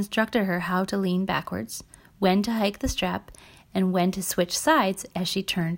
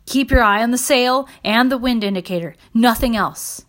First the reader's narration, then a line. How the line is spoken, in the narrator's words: followed behind, shouting